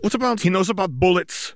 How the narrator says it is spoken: the witch shouted

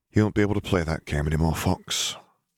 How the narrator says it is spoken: Harry murmured

